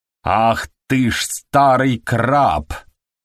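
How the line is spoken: Roaring. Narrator (Russian): проревел Вальвик

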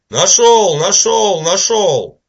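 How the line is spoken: Shouting goblin. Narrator (Russian): Паш-гоблин, который постоянно кричал

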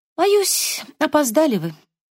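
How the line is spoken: Sigh. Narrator (Russian): вздохнула Энни

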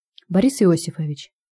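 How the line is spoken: Quiet, very angry. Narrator (Russian): сказал я тихо, но очень зло

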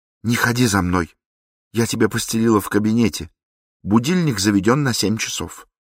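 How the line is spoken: Warning. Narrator (Russian): Жена предупредив

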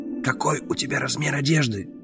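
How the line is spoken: Whispered question. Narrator (Russian): шепотом спросил

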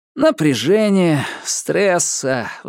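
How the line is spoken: Sighing. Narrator (Russian): вздохнул Ньют

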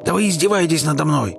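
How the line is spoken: Shouted. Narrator (Russian): закричал мистер Венсон

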